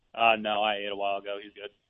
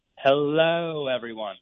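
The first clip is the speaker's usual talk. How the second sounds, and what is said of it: Put-on British accent. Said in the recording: “give us that Limey impression one more time. That's really good ... You nailed it ... He's got it down.”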